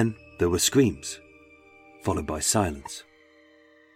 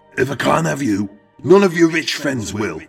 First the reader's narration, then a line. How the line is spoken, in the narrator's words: Eric shout